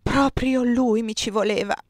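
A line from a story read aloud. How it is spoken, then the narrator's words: Groaning. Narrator (Italian): gemette Gian Battista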